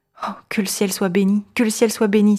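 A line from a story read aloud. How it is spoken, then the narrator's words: Exclaimed. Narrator (French): s'écria-t-elle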